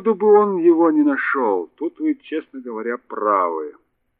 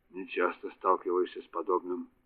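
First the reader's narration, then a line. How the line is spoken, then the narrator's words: Muttering. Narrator (Russian): пробормотал он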